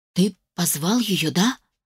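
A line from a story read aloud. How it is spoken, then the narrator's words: Whispered question. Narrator (Russian): прошептала вопрос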